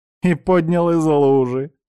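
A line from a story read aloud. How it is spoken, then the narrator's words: Kind laughter. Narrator (Russian): засмеялась она, впрочем, очевидно, по-доброму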